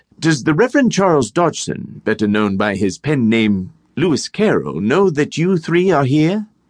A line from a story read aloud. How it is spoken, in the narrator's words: they all three exclaimed at once